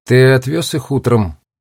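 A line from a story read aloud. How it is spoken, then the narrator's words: Muttered under breath. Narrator (Russian): Брэдли что-то буркнул себе под нос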